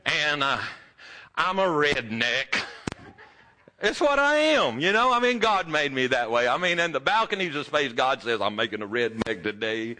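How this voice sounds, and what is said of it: Texan accent. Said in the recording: “I'm a Texas boy, if you can't tell from the accent.”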